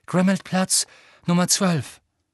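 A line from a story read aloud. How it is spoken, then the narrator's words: Called out. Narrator (German): rief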